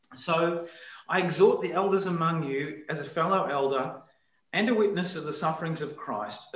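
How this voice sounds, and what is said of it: Voice affected by chesty cold. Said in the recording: “Excuse my voice, a little bit of a um, chesty cold”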